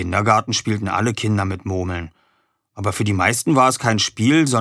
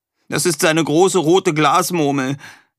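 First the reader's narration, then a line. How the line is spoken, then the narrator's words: Sobbing explanation. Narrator (German): erklärte Erik schluchzend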